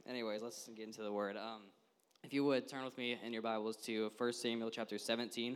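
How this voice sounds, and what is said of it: Slightly scratchy voice. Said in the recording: “my voice is a little scratchy. I don't sing high very well, and had to hit a couple high notes”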